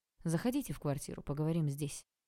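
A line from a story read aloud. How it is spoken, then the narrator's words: Dry statement. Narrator (Russian): Олег сухо сказал полицейскому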